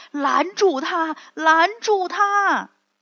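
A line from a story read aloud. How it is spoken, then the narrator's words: Loud shouting. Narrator (Chinese): 盖比都在后面使劲喊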